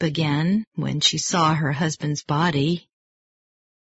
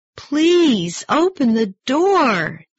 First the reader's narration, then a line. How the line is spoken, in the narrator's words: Josephine cried